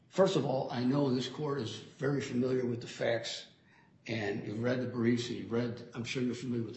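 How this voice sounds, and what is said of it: Voice affected by a cold. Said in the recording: “I apologize for my voice. I'm recovering from a cold.”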